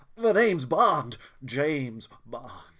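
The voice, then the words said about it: Imitates James Bond's voice. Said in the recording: “I haven't dusted off my impression in a while.”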